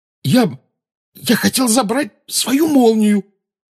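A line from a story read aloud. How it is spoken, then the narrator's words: Hoarse rasp. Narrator (Russian): прохрипел Гарри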